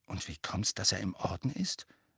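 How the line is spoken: Said very quietly. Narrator (German): sagte Harry sehr leise

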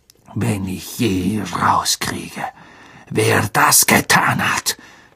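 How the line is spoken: Hissing. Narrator (German): zischte Snape

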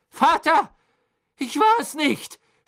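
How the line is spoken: Boy shouting desperately. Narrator (German): schrie der Junge in Ketten

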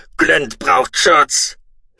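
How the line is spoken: Shout. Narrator (German): schrie Mutku

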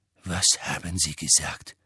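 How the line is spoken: Quiet question. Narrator (German): fragte Snape leise

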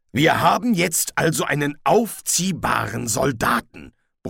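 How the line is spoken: Grumbled. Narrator (German): brummte Kolon

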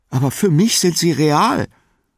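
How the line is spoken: Pleading. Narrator (German): sagte flehend

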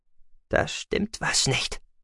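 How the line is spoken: Soft. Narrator (German): sagte sie leise

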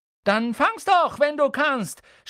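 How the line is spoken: Shout. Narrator (German): schrie er

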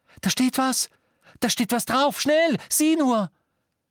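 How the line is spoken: Surprised excited exclamation. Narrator (German): so überrascht und aufgeregt war er

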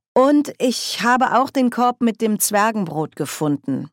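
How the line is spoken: Plain. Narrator (German): sagte Margaret

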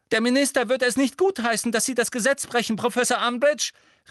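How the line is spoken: Calling out. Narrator (German): rief Hermine

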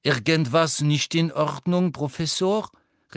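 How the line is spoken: Called out. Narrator (German): rief Madame Pomfrey

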